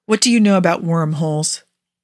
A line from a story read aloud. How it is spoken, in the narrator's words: Rodney catches his breath, but when he speaks, his voice is remarkably steady